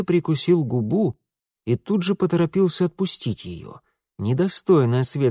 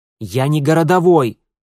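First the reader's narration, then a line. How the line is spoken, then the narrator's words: Angry outburst. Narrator (Russian): зло вскинулся Митя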